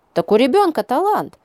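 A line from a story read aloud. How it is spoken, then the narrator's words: Mother's exclamation. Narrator (Russian): воскликнула мама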